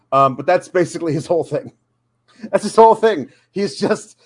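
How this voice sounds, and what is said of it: Usual voice. Nothing is said of it.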